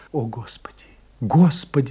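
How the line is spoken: Whisper. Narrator (Russian): шептала Франсуаза

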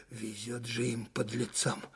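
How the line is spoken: Chilled major's voice. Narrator (Russian): зябким голосом проговорил штабной майор

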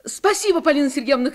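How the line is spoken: Shouting. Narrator (Russian): крикнула Таня

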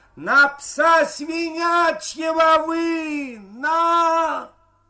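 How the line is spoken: Shouting in tenor. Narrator (Russian): Максим кричал тенарком

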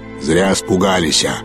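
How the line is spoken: Sudden deep voice from behind. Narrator (Russian): пробасил неожиданно кто-то за его спиной

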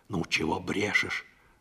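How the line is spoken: Displeased whisper. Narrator (Russian): сказала Парашка недовольным шепотом

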